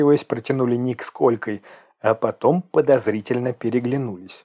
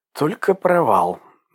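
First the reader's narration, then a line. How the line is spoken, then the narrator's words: Angry exhale. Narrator (Russian): зло выдохнул он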